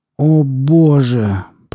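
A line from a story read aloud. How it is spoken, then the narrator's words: Groaning. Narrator (Russian): простонал Брэд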